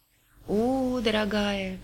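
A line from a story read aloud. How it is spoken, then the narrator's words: Drawn-out tone. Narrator (Russian): протянула подруга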